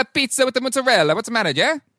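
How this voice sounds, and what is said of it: Put-on bad Italian accent. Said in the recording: “give me their pizza in a bad Italian accent ... a very good Italian accent ... a bad Italian accent”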